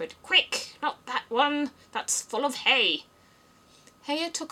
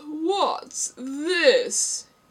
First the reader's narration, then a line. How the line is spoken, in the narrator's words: He said, speaking in a deep, hollow tone that sounded like the tolling of a great bell